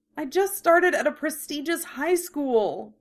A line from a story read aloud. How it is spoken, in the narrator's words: Keiko moaned